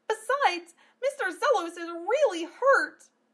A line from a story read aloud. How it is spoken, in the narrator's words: Amelia cried